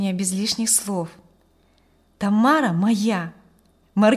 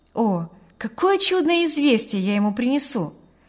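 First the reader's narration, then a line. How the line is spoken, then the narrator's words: Delighted exclamation. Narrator (Russian): воскликнул он восторженно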